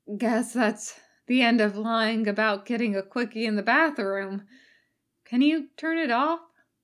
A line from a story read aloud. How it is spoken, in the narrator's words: He said hoarsely